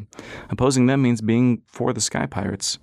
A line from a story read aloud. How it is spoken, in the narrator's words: sighed